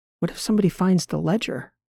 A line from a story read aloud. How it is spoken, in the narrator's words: whispered back